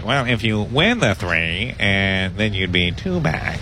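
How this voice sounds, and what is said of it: Impression of co-host's voice. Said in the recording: “That's a great impression. ... that's the perfect me. Well, I thought I was hearing myself. ... No, nailed it.”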